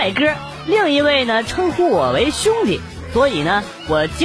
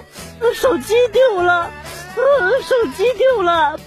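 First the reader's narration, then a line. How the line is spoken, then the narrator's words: Crying loudly. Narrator (Chinese): 这姑娘又跑到小偷的面前大哭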